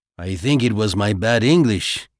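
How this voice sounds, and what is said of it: Horrible stereotyped foreign accent. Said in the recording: “he said in the horrible stereotyped accent he'd used.”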